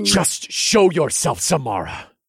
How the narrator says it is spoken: I hissed into the air

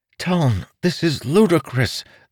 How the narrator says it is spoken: the monk said with a pleading voice

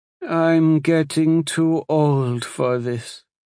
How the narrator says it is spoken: she sighed

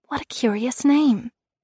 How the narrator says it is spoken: I whispered

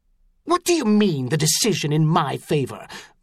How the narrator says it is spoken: Montal snarled

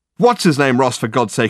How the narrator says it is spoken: exclaimed Richard

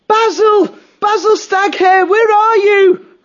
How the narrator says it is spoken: he shouted at the top of his voice

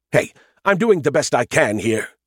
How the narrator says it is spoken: he snapped at me

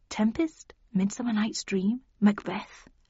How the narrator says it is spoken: muttered

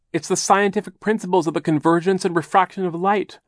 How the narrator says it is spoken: Violet cried

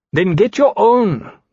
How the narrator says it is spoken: Domaine said rather indignantly

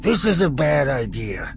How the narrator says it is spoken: Kilori warned

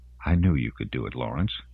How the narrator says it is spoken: she murmured quietly

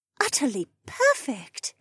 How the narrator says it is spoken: Janel breathed

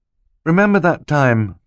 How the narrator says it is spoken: Klaus said wistfully

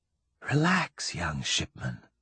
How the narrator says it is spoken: she whispered

